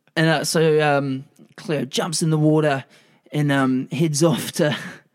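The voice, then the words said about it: Slight put-on Australian accent. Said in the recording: “Now I've got a bit of an Australian accent. It'll do it to you.”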